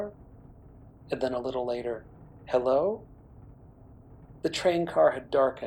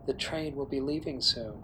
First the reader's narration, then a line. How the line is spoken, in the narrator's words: the face whispered